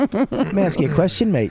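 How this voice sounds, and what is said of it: Mock Australian accent. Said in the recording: “he went back to Australia... The fucking accent stink”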